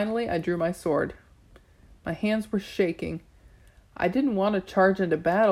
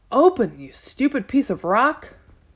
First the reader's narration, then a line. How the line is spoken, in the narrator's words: Sadie shouting